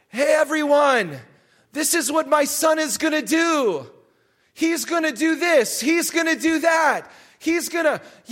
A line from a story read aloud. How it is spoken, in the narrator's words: shouted out